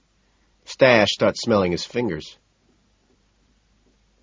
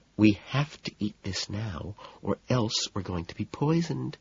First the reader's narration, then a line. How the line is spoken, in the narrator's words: she murmurs